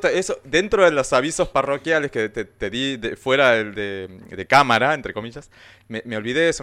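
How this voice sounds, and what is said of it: Slight Brazilian accent in Spanish. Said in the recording (Spanish): “vos tenés como un acento brasileño”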